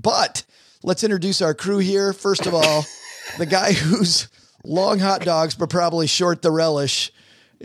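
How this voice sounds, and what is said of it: Strained, sick-sounding voice. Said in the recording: “You can hear from my voice that I'm feeling 1,000,000% today. Just incredible how this thing attacks the vocal cords. ... I probably feel better than I sound.”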